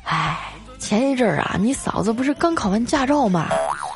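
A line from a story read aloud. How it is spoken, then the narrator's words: Sighing, helpless. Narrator (Chinese): 我表哥啊叹了口气啊，无奈的说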